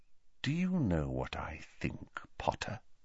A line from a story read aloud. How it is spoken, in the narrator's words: said Snape very quietly